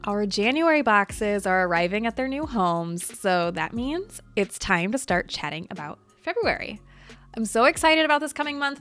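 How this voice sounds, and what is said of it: Slightly congested voice. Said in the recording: “come down with a nasty cold. So you might still hear that in my voice ... a little bit of congestion”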